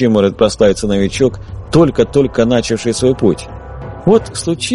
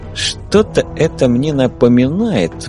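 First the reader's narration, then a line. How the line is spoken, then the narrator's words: Grumbled. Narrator (Russian): буркнул химик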